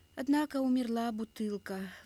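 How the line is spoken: Heavy sigh, young boy. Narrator (Russian): вздохнул тяжко тунгусенок

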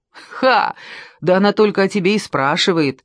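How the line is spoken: Laughing. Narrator (Russian): расхохотался Клит

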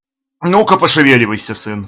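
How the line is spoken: Sharp shout. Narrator (Russian): прикрикнул Бахаго

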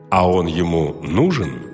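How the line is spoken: Plain, teacher. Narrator (Russian): спросил учитель

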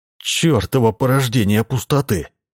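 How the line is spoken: Mutter. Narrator (Russian): пробормотал Джордж

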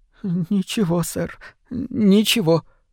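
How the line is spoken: Timid, frightened reassurance. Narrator (Russian): робко заверил Тримбл, похолодев

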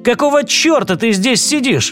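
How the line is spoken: Exclamation. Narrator (Russian): воскликнул О'Нейли

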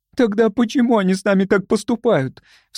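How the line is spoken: Sobbing. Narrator (Russian): всхлипнула Любочка

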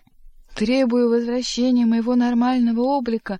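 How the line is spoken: Frenzied pleading hoarse grunting. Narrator (Russian): Вдруг не то исступленно, не то моляще прохрипел и захрюкал Боров

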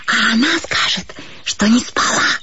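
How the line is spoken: Quiet whisper. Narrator (Russian): Проговорила я шепотом, будто бы для того, чтобы не разбудить Катю

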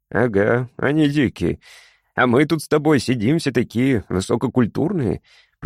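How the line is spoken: Grumbled. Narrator (Russian): пробурчал Фрол

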